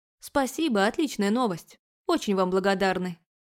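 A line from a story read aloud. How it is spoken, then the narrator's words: Rapid chatter. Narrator (Russian): она вместо меня затараторила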